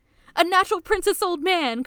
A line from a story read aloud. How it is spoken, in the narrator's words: Kakeru shouts